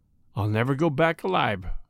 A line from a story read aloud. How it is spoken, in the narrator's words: said the burglar quietly